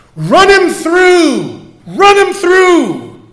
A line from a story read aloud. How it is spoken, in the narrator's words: The crowd protested and began to shout